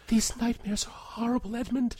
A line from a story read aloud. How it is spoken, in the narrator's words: whispers, voice distracted